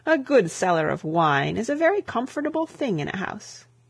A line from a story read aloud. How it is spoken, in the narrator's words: laughed the bishop